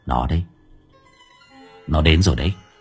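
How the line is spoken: Whisper. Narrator (Vietnamese): thì thầm

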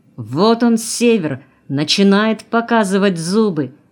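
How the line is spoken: Shouting into ear. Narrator (Russian): крикнул ей на ухо Сергей

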